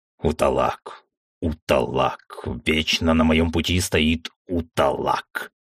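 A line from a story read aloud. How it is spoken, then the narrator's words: Inhuman bestial growl. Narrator (Russian): Прорычал он в ответ, еще никогда я не слышал в его голосе так мало человеческого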